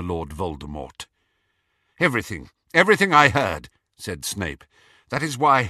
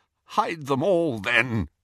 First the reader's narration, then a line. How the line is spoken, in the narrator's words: he croaked